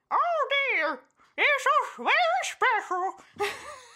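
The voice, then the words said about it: Squeaky Mickey Mouse-like cartoon voice. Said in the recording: “I had to do something with my mouth when I tried to talk this ... I sound like my Mickey Mouse”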